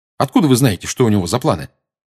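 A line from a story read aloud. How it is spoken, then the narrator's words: Quick question. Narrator (Russian): быстро спросил Гарри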